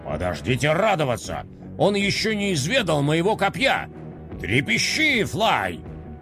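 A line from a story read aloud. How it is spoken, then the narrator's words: Menacing shout. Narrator (Russian): Грозно крикнул Декроль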